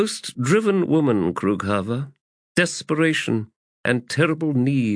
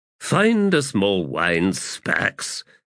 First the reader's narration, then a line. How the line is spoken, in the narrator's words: Abrastel growled